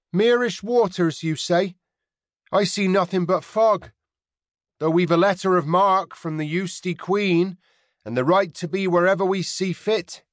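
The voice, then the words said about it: Rounded, inland accent. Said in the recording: “called over the water in her rounded, inland accent”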